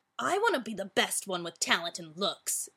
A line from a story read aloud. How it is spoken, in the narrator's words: grumbled Bryson